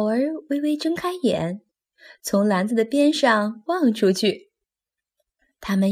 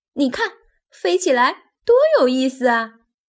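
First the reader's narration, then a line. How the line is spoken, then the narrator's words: Excited shout. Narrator (Chinese): 尤利兴奋的大叫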